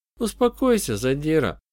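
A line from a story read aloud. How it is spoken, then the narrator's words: Unusually soft interjection. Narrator (Russian): вмешалась Сьюзи непривычно мягким голосом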